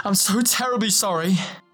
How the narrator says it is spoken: he spluttered finally, chaotically trying to gather thoughts

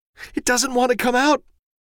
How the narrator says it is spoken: Susan sobbed

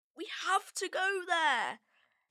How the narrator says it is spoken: pleaded Patrick

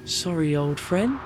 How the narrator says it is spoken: I whispered

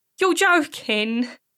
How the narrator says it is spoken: she said, trying desperately to make light of what would be a very sick joke

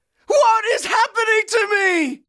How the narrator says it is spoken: Elgi screamed

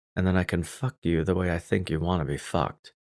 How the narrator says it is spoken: I whispered

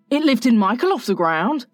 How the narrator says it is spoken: he cried

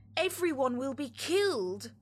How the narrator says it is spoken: shouted Mrs

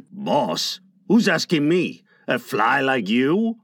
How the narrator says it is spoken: Miguel roared

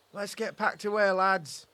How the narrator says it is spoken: shouted the supervisor

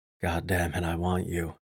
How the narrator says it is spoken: I growled in her ear

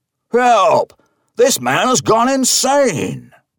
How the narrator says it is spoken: roars

